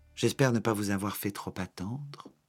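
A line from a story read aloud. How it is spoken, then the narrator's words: Innocent voice. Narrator (French): répondit Paddington d'une voix innocente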